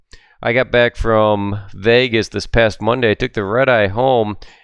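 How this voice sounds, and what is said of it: Slightly dry voice. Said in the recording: “my voice is a little dry today”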